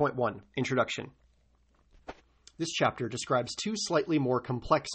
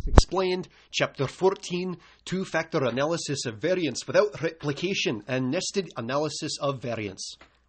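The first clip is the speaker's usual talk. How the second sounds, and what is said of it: Bad put-on Scottish accent. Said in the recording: “a terrible Scottish accent”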